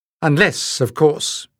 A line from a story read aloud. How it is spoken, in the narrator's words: added dryly